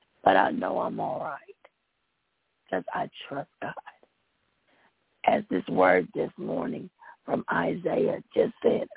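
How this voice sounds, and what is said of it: Hoarse, congested voice. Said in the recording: “I'm hoarse and somewhat congested ... you sound horrible”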